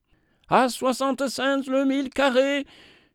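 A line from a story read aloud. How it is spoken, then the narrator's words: Shouting. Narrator (French): cria Flint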